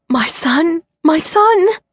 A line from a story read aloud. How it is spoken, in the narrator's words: a woman kept gasping